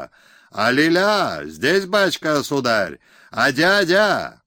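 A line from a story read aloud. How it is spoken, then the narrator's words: Piercing high-pitched shout. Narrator (Russian): закричал пронзительно и тонко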